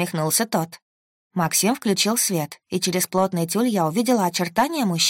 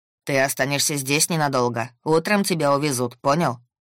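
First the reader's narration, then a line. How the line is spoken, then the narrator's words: Rather rude. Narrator (Russian): Довольно грубо обратился Максим к собеседнику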